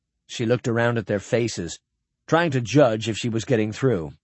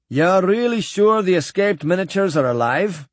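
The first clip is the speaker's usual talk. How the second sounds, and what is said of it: Hearty voice, slight New Scot accent. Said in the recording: “The voice was hearty, tinged with New Scot accent.”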